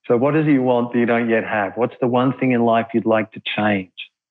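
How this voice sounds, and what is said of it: Australian accent. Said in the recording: “speaking to Australians ... I love your accent”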